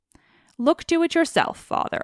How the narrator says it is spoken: answered Telemachus

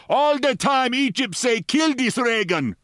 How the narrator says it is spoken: he shouted

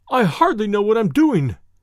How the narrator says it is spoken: he cried

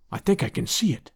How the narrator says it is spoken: he whispered

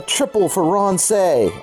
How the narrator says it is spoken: I cried

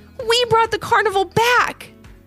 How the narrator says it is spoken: Kennedy exclaimed

